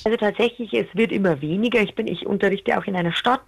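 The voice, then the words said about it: Clearly audible regional German dialect. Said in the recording (German): “bei dir hört man ja den Dialekt schon recht deutlich”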